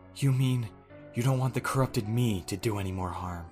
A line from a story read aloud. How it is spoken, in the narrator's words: She replied quietly